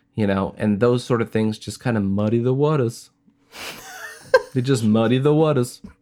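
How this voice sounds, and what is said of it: Character voice with unplaceable accent. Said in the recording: “I don't know what that accent is. I don't know where you're from. ... That's how Bill talks.”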